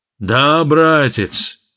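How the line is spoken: Sigh. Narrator (Russian): вздохнул Грогильёш

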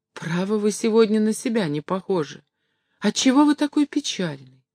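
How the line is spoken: Weak, sad voice. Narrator (Russian): Горбун грустно улыбнулся и проговорил слабым голосом

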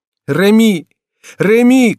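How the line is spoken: Shouting. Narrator (Russian): кричала спутница Генриха

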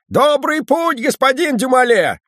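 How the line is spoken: Called out loudly. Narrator (Russian): кучер крикнул ему

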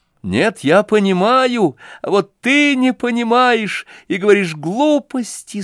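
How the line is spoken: Tearful. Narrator (Russian): сказал я сквозь слезы

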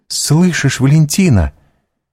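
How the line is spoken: Exclaiming. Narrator (Russian): воскликнула Гайда

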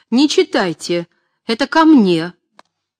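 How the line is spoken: Frantic exclamation. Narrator (Russian): Аня, как безумная, воскликнув

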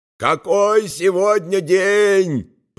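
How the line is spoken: Shouting. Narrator (Russian): прокричал Баудолина

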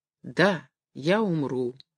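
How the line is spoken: Quiet, sick woman. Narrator (Russian): тихо прибавила больная

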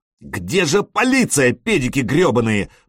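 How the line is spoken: Shouted. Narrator (Russian): прокричал он

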